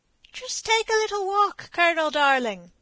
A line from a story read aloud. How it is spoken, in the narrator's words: said a smooth, mocking voice behind him